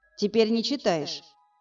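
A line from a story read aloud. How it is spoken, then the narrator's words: Cold. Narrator (Russian): Холодно уточнил я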